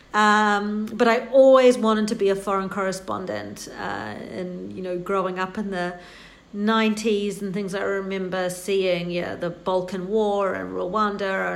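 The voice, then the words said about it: New Zealand accent. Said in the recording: “my funny accent, I am not American. I'm New Zealander”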